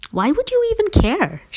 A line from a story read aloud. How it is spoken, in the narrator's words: She asked in a genuinely puzzled tone